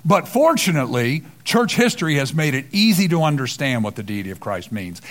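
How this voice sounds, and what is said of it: Sarcastic tone. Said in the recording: “I'm saying that sarcastically”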